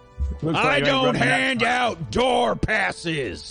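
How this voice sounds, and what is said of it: Shouting angrily. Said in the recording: “Why are you shouting”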